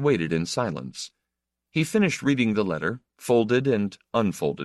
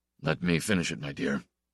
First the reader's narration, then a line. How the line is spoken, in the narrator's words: he said as quietly